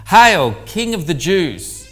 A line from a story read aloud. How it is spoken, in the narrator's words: saluted, yelling